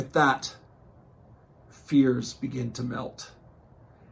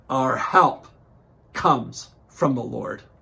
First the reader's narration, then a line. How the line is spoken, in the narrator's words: the roar of the crowd as they respond in unison